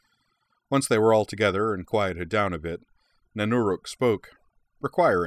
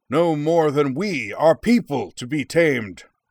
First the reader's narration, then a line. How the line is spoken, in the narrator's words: Nanuruk thundered